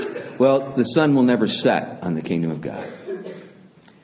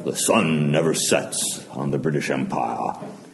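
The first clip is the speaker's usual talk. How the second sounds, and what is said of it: Bravado English accent. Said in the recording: “the old, you know, bravado ... that English accent”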